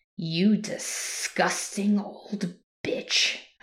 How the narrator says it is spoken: I growled

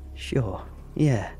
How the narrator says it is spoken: I chuckled

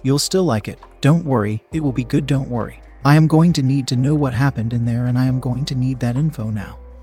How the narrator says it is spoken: I said

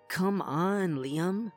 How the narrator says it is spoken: she groaned

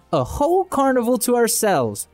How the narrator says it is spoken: Patty exclaims

